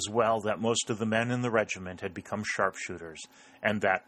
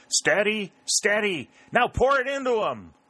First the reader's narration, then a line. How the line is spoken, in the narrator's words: he shouted with the other officers